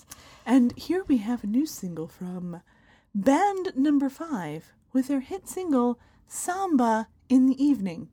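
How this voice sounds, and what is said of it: Radio announcer voice. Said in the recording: “my super great announcer voice ... that was a good announcer voice”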